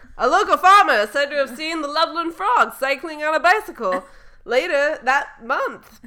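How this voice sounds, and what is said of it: TV news anchor voice. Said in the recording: “read it in like a news accent”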